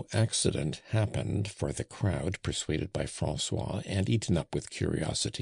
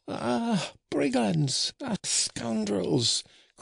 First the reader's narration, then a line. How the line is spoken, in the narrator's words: cried Fario